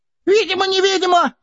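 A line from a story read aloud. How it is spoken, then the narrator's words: Squeaking. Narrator (Russian): пискнул было Бильбо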